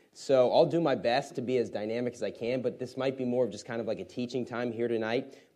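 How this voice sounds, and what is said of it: Slightly messed-up voice. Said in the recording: “my voice is a little bit messed up today”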